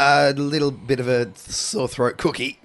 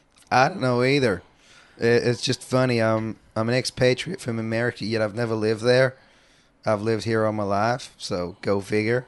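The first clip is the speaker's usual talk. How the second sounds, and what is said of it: Put-on southern accent. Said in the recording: “For some reason, he has a southern accent.”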